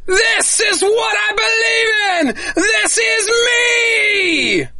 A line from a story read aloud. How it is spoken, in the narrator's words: shouting